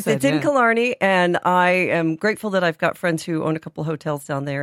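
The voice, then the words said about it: American accent. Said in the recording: “mad American diddly-eye Irish accents... My accent's going to give me away... my accent is still from over there”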